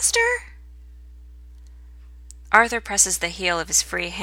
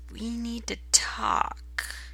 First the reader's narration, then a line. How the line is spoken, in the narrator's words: he mutters